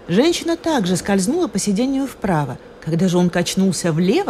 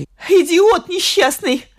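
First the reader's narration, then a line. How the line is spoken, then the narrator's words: Furious shout. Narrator (Russian): в бешенстве закричала она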